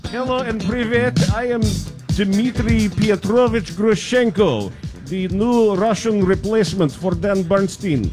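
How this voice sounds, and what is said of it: Put-on Russian accent. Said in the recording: “My Russian accent goes this far, and it is done now. ... All you had was Russian accent before became High German.”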